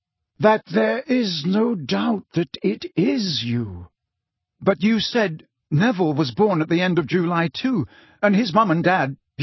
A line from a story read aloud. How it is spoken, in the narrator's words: said Dumbledore slowly, looking as though every word cost him a great effort